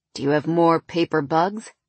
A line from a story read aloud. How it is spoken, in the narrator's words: he asked in that deep, smooth voice